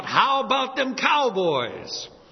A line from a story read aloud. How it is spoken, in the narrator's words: at the parade, everybody's yelling out